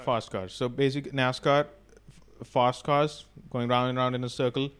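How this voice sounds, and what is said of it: Speaks with a noticeable accent. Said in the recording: “I'm sorry for the accent. It's bad, I know.”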